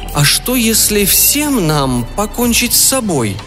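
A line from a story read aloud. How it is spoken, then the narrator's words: Hesitant suggestion. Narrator (Russian): неуверенно предложила герцогиня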